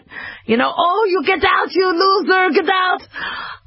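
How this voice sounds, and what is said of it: Imitated Israeli accent. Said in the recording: “my father's Israeli accent”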